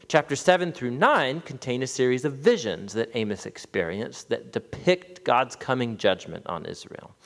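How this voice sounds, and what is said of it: American accent. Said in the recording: “It's quite Americanized, sorry for the American accent”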